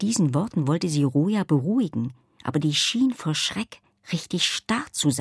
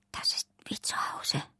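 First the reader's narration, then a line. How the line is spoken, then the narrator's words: Whispered. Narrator (German): flüsterte Roja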